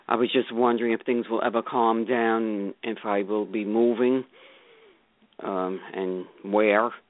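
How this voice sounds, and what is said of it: Brooklyn New York accent. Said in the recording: “I should have recognized that accent ... Oh, yes, you do. ... I recognize the Brooklyn accent.”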